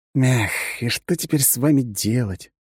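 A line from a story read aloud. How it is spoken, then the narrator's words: Sad sigh. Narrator (Russian): грустно вздохнул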